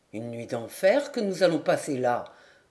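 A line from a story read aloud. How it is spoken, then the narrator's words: Grumbled. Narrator (French): grommela maître Guivarc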